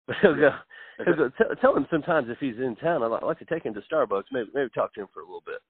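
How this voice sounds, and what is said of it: Imitates another person's voice. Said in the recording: “he talks just like this, and he'll kill me if he knows I do this impersonation.”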